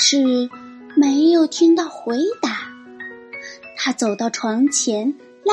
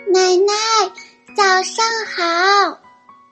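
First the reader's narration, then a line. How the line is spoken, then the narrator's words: Loud call. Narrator (Chinese): 他大声叫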